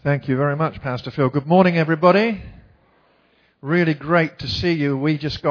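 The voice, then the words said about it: English accent. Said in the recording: “we have had our accent surgically refurbished while being there. How many of you can hear my accent? You just detect that very slightly.”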